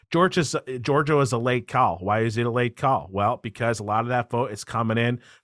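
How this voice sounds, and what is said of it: Mixed Southern New York-Philly accent impression. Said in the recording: “I'm going to do my best Steve Kornacki here ... Southern New York, Philly combo accent going on ... super complicated accent, but then he has the Ben Folds elocution finish on top of it”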